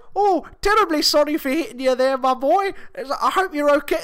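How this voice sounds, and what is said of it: Exaggerated put-on British accent. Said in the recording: “this ridiculous British accent”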